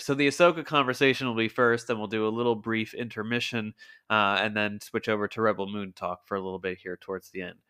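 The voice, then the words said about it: Lower, groggy voice from a cold. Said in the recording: “my voice sounds a little bit lower or groggier than usual. Yes, I am a little under the weather. I got a little bit of a cold this week”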